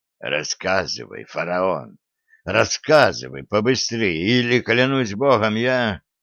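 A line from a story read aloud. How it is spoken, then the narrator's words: Near whisper. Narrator (Russian): мастер чуть ли не шепотом произнес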